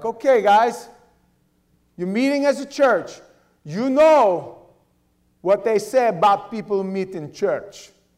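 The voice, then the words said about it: Put-on Russian accent. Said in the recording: “That's my Russian accent. You like it? Not bad, huh? I trained with Russians lots.”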